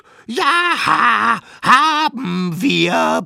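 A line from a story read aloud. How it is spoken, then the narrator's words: Children roaring. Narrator (German): brüllten die kleinen Wilden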